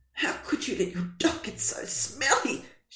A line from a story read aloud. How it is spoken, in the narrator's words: spluttered